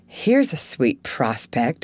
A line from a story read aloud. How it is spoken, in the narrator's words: muttered Jo